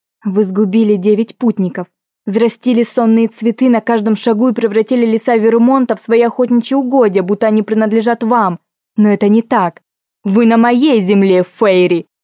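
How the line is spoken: Growl. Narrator (Russian): Прорычала я

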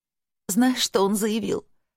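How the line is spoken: Sobbing. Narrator (Russian): Подруга все еще всхлипывала

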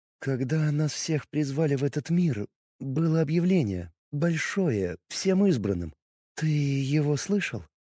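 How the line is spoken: Sighing. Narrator (Russian): Она вздохнула

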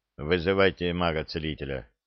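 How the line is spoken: Gloomy command. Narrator (Russian): мрачно приказал Олег

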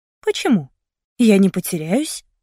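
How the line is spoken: Calm. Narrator (Russian): сказала я спокойно

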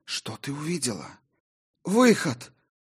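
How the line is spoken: Hoarse, strained, through broken lips. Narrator (Russian): прохрипела воительница, с трудом выталкивая слова из разбитых губ

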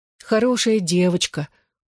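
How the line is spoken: Affectionate. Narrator (Russian): ласково говорила я

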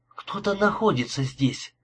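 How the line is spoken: Whisper. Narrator (Russian): прошептала Джулия

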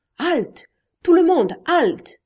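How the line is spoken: Shouted. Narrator (French): cria Inigo

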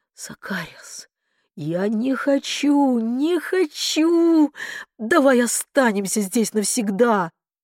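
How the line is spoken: Strained, forced out. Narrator (Russian): выдавила

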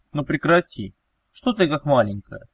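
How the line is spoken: Warm, smiling. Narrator (Russian): Вновь ласково улыбнулся Велес

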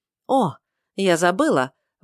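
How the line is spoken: Exclaimed. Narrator (Russian): воскликнула Джиневра

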